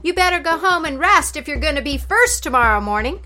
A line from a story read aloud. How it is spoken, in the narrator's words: Fox yelled after him